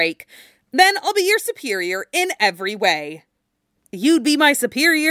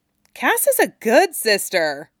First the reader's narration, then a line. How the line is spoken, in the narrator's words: Tim said cheerfully